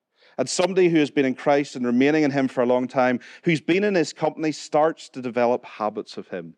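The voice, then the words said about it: Northern Irish accent. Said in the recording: “my Northern Irish accent has had to calm down a wee bit”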